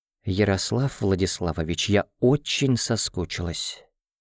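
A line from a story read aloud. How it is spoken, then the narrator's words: Whisper. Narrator (Russian): прошептала она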